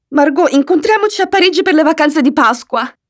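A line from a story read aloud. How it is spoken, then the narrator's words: Exclaimed between coughs. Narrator (Italian): Tra un colpo di tosse e l'altro, esclamo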